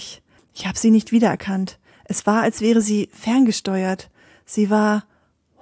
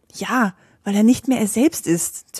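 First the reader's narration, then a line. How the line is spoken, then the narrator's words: Hissing. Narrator (German): zischte sie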